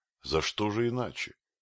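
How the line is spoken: Grim. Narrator (Russian): мрачно проговорил муж Месуа

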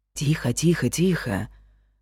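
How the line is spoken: Soothing whisper. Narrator (Russian): шепнул

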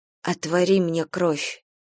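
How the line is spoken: Quiet. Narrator (Russian): тихо сказала

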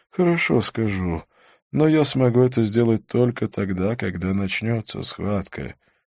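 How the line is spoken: Sad reply. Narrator (Russian): печально ответил Халет

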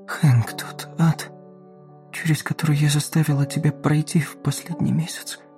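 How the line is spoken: Whisper. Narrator (Russian): прошептала она

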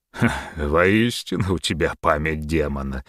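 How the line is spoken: Laughing at own joke. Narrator (Russian): человек рассмеялся собственной шутке

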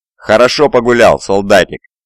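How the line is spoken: Laughing. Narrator (Russian): засмеялся лейтенант

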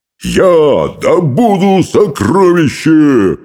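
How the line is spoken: Roar. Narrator (Russian): взревел он

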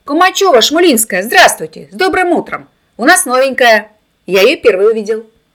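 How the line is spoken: Shouting boy. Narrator (Russian): Володька закричал

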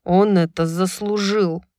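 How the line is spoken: Muttered through teeth. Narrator (Russian): процедил Хант

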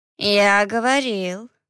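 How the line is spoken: Drawled. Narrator (Russian): протянул Фалот

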